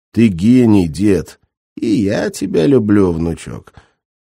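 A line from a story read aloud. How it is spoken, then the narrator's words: Laughing. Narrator (Russian): засмеялся Геннадий Терентьевич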